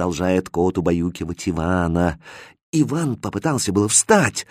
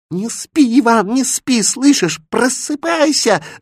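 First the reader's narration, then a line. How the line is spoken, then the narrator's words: Squeaky voice in ear. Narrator (Russian): запищал заяц на ухо спящему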